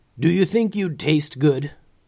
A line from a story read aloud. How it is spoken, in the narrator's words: growled the gray dragon